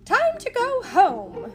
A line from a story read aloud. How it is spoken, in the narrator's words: Mary Poppins' voice, crisp and firm, cut sharply through the laughter